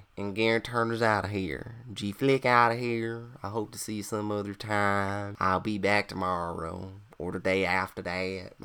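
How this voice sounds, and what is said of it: Exaggerated American country accent. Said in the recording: “My country accent is starting to sound like shit. Actually, I sound like a redneck hillbilly.”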